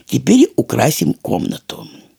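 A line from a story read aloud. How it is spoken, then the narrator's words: Soft, kind. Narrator (Russian): сказал мягко добрый Дрема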